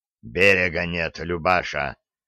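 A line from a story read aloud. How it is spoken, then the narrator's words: Hoarse. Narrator (Russian): хрипло ответил кормчий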